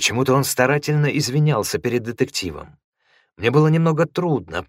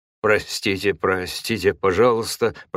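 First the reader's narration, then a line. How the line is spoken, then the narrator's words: Mumbling apology. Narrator (Russian): пробормотал Инубо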